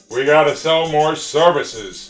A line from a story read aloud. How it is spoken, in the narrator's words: intoned Jed Smythe, head assistant branch manager